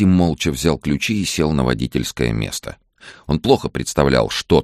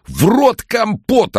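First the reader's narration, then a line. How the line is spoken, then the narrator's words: Terrible yelling voice. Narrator (Russian): орал он страшным голосом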